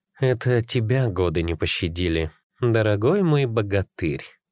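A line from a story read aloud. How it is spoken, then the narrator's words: Purring. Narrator (Russian): промурлыкала Елена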